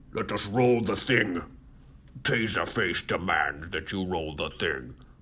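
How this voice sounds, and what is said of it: Poor gruff villain character voice. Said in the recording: “This is not a good Taserface impersonation. ... It almost went into Bane a little bit.”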